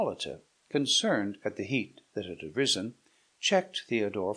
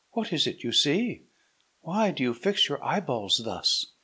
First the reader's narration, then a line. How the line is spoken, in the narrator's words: cried Hippolyta